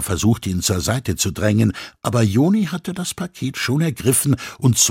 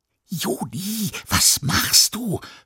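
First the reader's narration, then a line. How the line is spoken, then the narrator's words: Excited whisper. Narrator (German): flüsterte Mia aufgeregt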